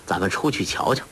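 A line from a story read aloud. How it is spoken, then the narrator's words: Laughing. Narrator (Chinese): 郭靖笑道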